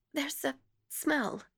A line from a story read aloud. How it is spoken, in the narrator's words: murmured Miss Pym rather faintly